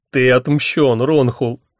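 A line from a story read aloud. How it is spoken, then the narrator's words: Said through laughter. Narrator (Russian): сквозь смех выговорил он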